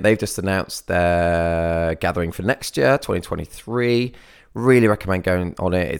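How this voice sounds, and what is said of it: Wrecked, strained voice. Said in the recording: “my voice is so wrecked”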